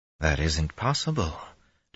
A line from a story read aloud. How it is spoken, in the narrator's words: Dashiva muttered into the silence, but nearly under his breath